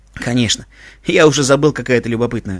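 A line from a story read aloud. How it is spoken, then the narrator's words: Laughing. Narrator (Russian): рассмеялся Иван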